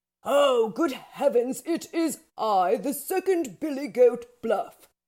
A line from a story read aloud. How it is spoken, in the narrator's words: said he, with a much bigger booming voice